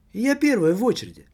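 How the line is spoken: Exclaimed. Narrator (Russian): воскликнула она

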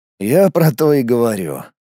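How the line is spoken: Sad chuckle. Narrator (Russian): грустно усмехнулся я

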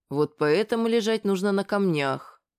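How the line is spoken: Muffled, indistinct mumble. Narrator (Russian): невнятно промямлил Масса, чья щека была прижата к скале

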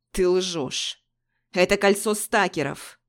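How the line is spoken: Furious, through teeth. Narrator (Russian): Яростно процедил Дерек Берг

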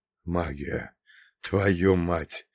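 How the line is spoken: Mutter. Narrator (Russian): пробормотал

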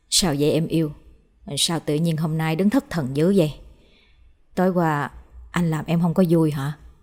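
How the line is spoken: Soft question. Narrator (Vietnamese): Nhìn thấy Hoa thất thần, chú Hiệp hỏi khẽ

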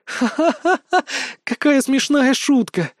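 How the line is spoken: Laughing. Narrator (Russian): рассмеялась Настя

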